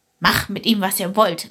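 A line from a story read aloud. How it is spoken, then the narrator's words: Laughing, several men. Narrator (German): lachten die Brüder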